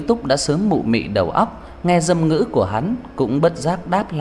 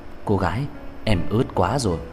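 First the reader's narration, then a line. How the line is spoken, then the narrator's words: Low intimate whisper. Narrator (Vietnamese): Hắn trầm thấp giọng ghé sát tai cô thì thầm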